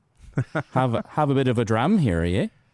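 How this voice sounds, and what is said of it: Put-on Irish accent. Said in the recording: “I can maybe do a proper Irish accent ... that was Irish.”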